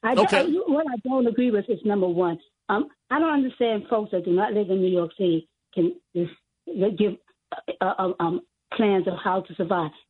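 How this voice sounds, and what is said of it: Hoarse voice. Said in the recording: “I don't agree with this hoarse voice that I have”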